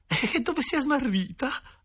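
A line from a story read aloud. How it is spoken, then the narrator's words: Mother asking, laughing. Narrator (Italian): ha domandato la mamma ridendo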